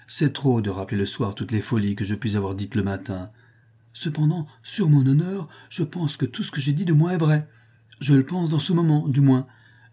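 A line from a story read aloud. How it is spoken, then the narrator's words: Exclaimed. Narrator (French): s'écria Bingley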